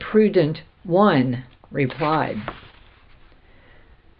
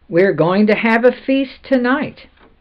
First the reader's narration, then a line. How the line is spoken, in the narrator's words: the other three all cried